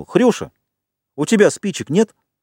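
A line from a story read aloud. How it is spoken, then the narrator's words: Shouted. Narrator (Russian): Ральф крикнул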